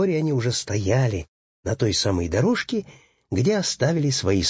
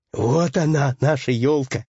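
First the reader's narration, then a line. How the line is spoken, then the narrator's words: Joyful shout. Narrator (Russian): радостно закричал Пэтсон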